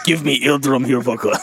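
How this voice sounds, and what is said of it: Put-on Russian accent. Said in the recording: “Why does he have a Russian accent? ... I don't know why, but you said it, now I can only hear it.”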